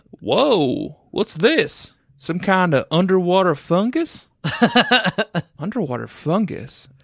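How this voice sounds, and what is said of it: Put-on Louisville accent. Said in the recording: “do a Louisville accent.”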